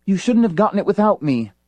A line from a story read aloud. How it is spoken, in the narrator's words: Iran gasped